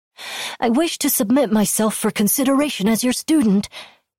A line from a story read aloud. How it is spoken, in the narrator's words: he yelped